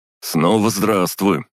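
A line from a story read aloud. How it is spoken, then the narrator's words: Amused snort. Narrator (Russian): хмыкнул он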